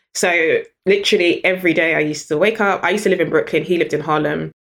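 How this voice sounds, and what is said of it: British accent. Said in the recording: “the minute he heard my accent ... you've got a British girl that works for you”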